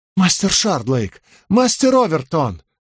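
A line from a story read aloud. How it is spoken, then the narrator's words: Exclaiming. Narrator (Russian): воскликнул он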